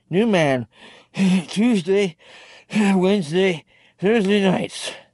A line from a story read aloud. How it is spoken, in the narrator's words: Herd managed, then went back to gasping